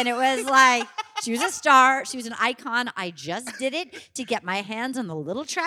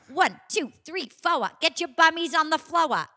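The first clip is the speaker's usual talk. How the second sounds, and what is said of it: Thick Rhode Island accent. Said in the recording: “a woman with a thick Rhode Island accent”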